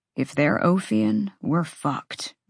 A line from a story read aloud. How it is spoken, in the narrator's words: Rune muttered